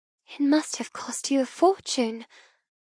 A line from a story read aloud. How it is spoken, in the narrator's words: whisper